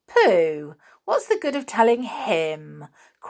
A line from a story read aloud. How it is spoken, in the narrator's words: cried a pixie scornfully